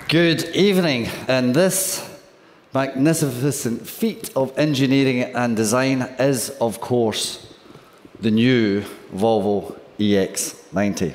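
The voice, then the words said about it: Swedish English, sounds somewhat Scottish. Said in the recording (Dutch): “dat Zweeds, dat lijkt een beetje op een Engels met een Schots accent ... Dat is goed te verstaan ook wel”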